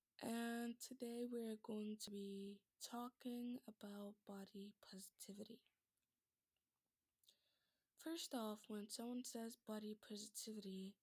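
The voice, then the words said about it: Cracky, strained voice. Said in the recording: “my voice might be a little cracky ... I'm going through some throat issues”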